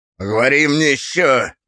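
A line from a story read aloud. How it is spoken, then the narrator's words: Grumbling. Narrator (Russian): проворчал собеседник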